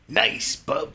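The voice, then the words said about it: Gruff Wolverine-style character impression. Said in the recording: “my Tommy Gunn as Wolverine impersonation ... doing an impression of Tommy Gunn”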